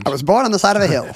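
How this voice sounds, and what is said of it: Put-on mid-Atlantic accent. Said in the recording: “talking with a mid-Atlantic accent”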